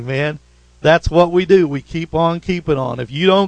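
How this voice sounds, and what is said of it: Usual voice. Nothing is said of it.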